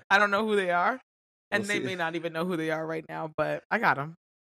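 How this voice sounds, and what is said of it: Slightly raspy voice. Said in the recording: “I probably sound a little different, a little raspy, a little sexy.”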